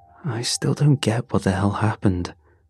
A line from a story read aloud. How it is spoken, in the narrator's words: Raph muttered